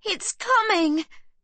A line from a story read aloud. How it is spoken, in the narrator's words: Sibby yells